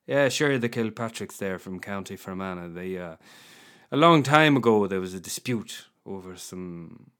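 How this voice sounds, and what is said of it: Put-on middle-class Dublin accent. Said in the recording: “I've never done this accent before, I don't think. This is a very middle-class Dublin accent”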